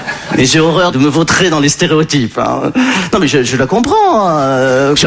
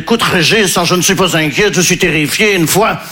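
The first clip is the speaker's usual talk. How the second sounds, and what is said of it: Put-on Belgian accent. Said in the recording (French): “je prends l'accent belge parce que je ne sais pas faire l'accent ukrainien”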